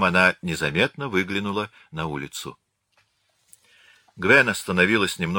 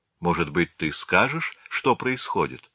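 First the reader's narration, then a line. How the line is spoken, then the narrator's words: Plain. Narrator (Russian): спросила она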